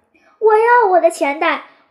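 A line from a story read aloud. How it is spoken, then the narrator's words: Breathless crying out. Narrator (Chinese): 它被压得喘不过气来，但嘴里还不住地叫着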